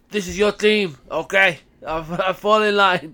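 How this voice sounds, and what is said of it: Poor put-on Scottish accent. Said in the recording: “It's a terrible Scottish accent. ... Not your best”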